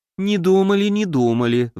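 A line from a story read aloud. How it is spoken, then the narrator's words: Sighing. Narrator (Russian): вздохнула пиявка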